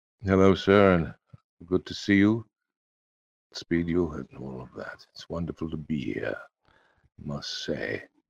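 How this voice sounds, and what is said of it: Put-on British accent. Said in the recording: “You make British accents sound better when you do it”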